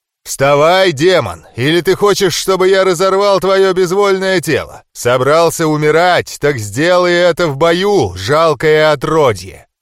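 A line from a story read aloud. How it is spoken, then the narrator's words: Dragon's roar. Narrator (Russian): проревел дракон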